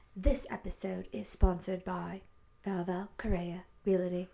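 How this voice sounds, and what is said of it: Put-on accent. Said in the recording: “I'm going to do mine in an accent too.”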